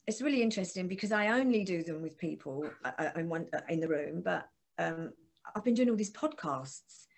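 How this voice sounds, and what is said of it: Essex accent, quick speech. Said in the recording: “because I'm from Essex ... a lot of us just talk through our teeth really, really quick like that ... A lot of Essex people talk through their teeth ... Your accent.”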